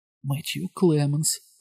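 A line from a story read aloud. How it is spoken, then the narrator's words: Whispered. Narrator (Ukrainian): прошепотів той голос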